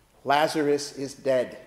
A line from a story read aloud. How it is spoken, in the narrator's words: she says